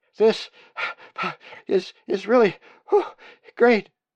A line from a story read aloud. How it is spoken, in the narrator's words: said in a frightened voice